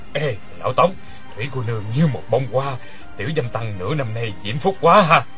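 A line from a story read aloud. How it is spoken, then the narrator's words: Low laughing voice. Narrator (Vietnamese): Người kia hạ giọng cười nói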